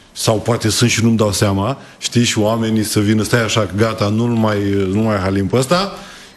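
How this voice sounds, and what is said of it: Regional Moldovan-tinged Romanian accent. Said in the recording (Romanian): “Ți-ai păstrat accentul, n-a plecat cu totul. ... Și este un farmec, mie îmi place. ... accentul în Buzău ... este Buzău partea Moldovei sau nu”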